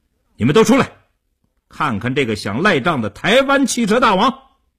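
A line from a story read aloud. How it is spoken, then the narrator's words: Fierce raised-voice shout. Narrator (Chinese): 叶成坚恶狠狠地盯着刘少坤，提高声音对李屋喊道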